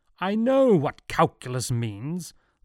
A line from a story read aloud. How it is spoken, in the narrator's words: thundered Newton